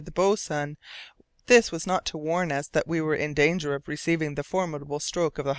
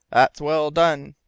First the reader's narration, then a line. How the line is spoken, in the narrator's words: growled Hearne